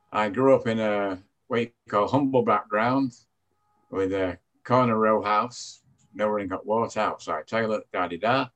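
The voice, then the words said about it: British Manchester accent. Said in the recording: “as you can tell from my accent, I'm British. I came from Manchester, England.”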